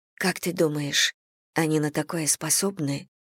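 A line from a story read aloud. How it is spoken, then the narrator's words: Very quiet question. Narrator (Russian): спросила Саня очень тихо, так что ее могла слышать только Мэгги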